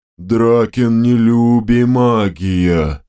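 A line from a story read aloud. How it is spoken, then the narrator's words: Deep booming. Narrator (Russian): Басовито прогудела левая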